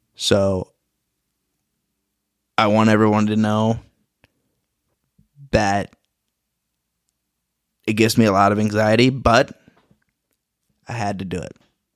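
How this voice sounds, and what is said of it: Shaking, emotional voice. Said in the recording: “I'm shaking, my voice is shaking right now”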